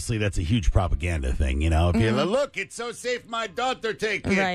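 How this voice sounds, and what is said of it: Usual voice. Nothing is said of it.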